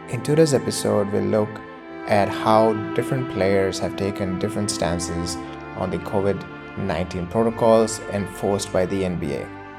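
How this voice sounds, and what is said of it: Indian accent. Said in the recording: “in an Indian accent”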